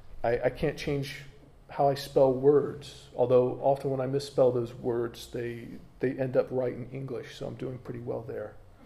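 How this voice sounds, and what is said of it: American accent. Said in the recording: “there's things about me that will always mark me out as being from America. You know, I can't change my accent.”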